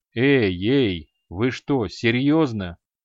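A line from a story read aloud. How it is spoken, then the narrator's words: Dismissive snort. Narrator (Russian): пренебрежительно хмыкнул маг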